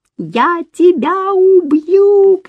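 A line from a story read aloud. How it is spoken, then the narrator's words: Shouting. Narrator (Russian): кричала она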